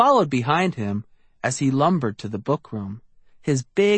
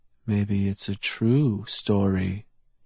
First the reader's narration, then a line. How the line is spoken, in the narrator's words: muttered